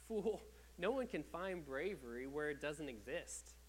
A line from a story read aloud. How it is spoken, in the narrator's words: The elders laughed